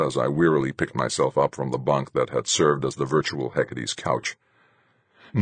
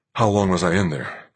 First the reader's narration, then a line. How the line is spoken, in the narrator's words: asked, panting